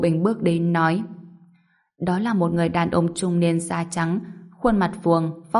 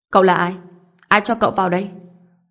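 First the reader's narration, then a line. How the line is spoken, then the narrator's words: Raised voice. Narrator (Vietnamese): Ngô Bình cao giọng nói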